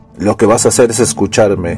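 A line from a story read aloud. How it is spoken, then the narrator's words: Old man bellowing. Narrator (Spanish): bramó el viejo Jonas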